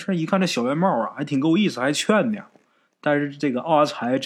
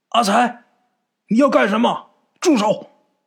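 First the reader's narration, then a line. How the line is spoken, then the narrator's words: Shouting. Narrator (Chinese): 小圆帽在那喊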